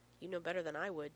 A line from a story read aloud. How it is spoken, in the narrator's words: Dave says bitterly